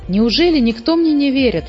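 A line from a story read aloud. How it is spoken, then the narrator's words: Exclaimed. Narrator (Russian): воскликнул муми-тролль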